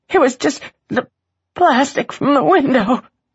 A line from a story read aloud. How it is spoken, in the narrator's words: Gabe gasped